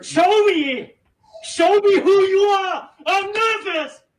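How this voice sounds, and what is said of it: Yelling angrily. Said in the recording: “he's yelling at me”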